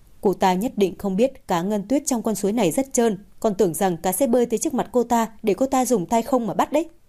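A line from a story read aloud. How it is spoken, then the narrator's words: Laughing. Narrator (Vietnamese): Ưng bật cười, nói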